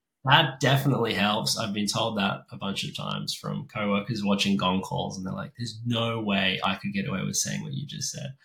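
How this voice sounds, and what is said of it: Australian accent. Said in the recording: “Aussie accent.”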